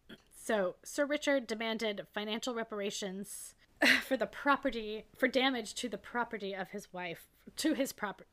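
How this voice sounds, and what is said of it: Hoarse, strained voice. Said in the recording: “I'm sorry, I'm losing my voice.”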